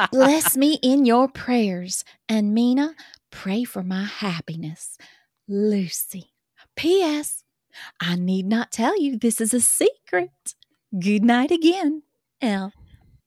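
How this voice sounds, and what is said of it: Put-on accent, wavers in places. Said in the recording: “I'm not going to attempt that accent, which, by the way, that is a manful job you're doing right there ... you're sticking with it ... I had a little waffling in there in the middle where it kind of comes and goes”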